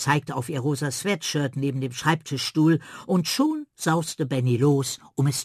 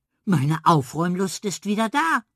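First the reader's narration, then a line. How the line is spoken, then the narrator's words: Woman calling out. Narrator (German): rief sie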